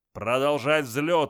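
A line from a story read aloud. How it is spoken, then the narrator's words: Barked command. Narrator (Russian): рявкнул Зардж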